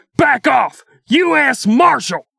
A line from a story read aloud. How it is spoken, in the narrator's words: Believing it was an ambush, Deegan jumped out from behind cover and shouted